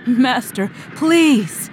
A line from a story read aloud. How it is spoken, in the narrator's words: begged the harried stranger in a louder voice